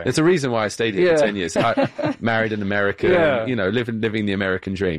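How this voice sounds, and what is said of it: British accent. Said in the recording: “it's my British accent that makes me sound more ... our guest has a British accent”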